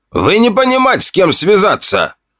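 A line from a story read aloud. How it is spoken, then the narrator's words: Foreign aristocrat shouting. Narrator (Russian): Кричал на меня худощавый усатый аристократ, родом с одного мерзопакостного острова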